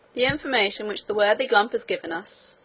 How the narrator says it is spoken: he said

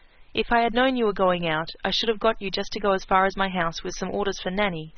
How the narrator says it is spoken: said she

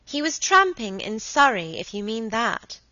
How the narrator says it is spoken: said Margaret, rather crossly

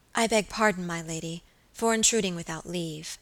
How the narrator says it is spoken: she said

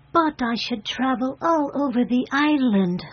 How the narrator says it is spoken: said the fairy brightly

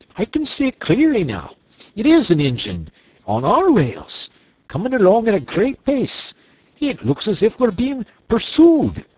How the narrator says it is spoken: he called out

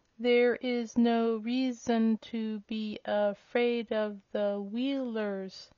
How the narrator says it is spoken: said Tik-Tok, the words coming more slowly than before

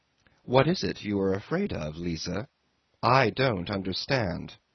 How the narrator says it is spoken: said he

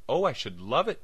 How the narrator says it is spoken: cried Agatha

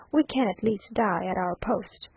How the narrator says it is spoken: calmly said, as Henriot gave the order to fire

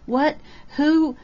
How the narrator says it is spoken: Lydia Carr gasped

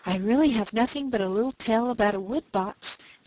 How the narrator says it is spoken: said Mrs

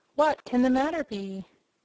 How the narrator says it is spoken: said Dorothy in a frightened tone

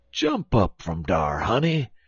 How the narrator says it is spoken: exclaimed Uncle Remus by way of reply

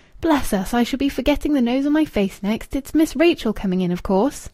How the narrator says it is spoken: she gave a short laugh, and said in her ordinary tone

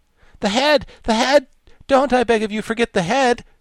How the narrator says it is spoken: cried the Wogglebug excitedly

